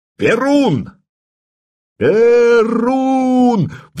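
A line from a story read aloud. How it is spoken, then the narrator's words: Hundreds of voices roaring. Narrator (Russian): взревели сотни глоток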